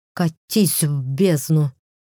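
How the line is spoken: Hissed through clenched teeth. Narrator (Russian): процедила сквозь стиснутые зубы

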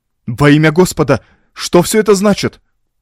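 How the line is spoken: Exclamation. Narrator (Russian): воскликнул я

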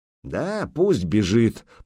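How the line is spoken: Grumble. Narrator (Russian): проворчал кривич

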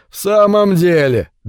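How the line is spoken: Pressing question after laughing. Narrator (Russian): допытывался Джим, когда перестал смеяться

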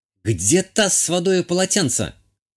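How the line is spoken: Shouted. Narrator (Russian): прокричала Азалия

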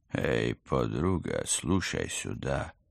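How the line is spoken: Rapid sing-song rap tone. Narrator (Russian): распевным рэперским тоном зачастил собеседник

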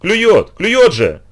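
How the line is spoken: Shout. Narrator (Russian): закричал Агрис

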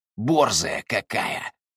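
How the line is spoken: Hissed. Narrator (Russian): прошипел

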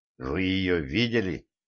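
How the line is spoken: Hoarse. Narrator (Russian): произнес я хрипло

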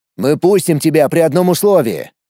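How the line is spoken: Barked. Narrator (Russian): рявкнул

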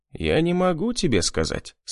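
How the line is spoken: Calm reply. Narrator (Russian): спокойно ответил я

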